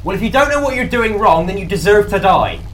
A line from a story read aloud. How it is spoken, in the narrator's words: I'm going to shout at the computer